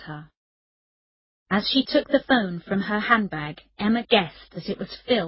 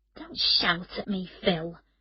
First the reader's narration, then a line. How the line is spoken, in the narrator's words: Emma said quietly